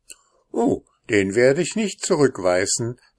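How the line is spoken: Soldier laughing. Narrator (German): lachte der Soldat

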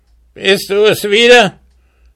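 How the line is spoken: Angry dwarf shouting. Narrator (German): rief der Zwerg zornig an

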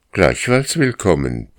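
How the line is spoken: Barked. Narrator (German): bellte Karl

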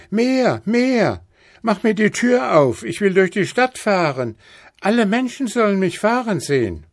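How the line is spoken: Shouting. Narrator (German): schrie Häwelmann

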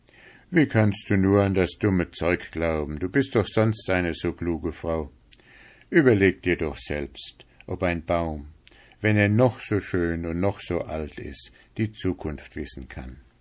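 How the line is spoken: Laughing man. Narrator (German): lachte der Mann und sagte

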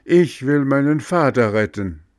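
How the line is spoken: Loud call. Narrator (German): Laut rief

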